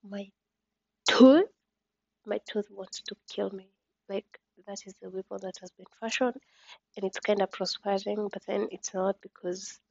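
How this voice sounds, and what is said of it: Whispery sleepy speech. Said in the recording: “I'm speaking like I'm whispering because I'm sleepy”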